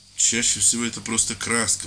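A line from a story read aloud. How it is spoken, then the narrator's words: Conciliatory priest's mutter. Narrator (Russian): пробормотал священник примирительно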